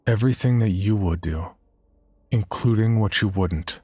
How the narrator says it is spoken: you must very firmly reply

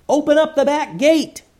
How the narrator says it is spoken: yelled Eleanor

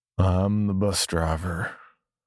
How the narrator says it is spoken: he said, his voice low and drawled, as if he was drugged or on drugs

